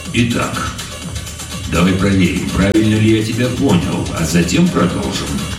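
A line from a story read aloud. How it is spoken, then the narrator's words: Colonel, calm. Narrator (Russian): спокойно произнес полковник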